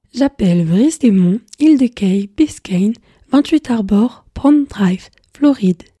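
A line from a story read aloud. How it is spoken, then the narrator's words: Smooth machine voice. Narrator (French): lui répondit d'une voix suave l'appareil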